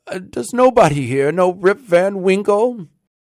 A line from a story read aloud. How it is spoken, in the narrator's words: cried out in despair